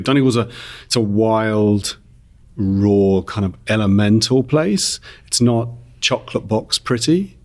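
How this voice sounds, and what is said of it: Non-Donegal, not Irish accent. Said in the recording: “you can tell from my accent that I'm not actually from Donegal”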